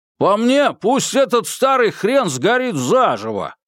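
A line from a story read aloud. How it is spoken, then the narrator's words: Loud, meant to be overheard. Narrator (Russian): сказал достаточно громко, чтобы его было слышно за дверью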